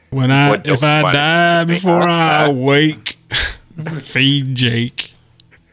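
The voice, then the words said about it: Country twang singing voice. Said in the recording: “It sounds country. ... the whole twang thing? ... Oh, the twang.”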